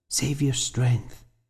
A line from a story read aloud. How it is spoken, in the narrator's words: she whispered